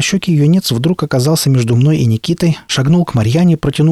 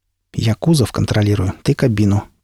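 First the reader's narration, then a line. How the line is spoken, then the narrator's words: Quiet. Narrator (Russian): тихо сказал Пригоршня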